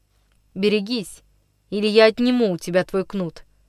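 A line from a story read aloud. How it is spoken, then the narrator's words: Calm, trembling with anger. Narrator (Russian): спокойно проговорил Андрюша, хотя голос его дрогнул от затаенного гнева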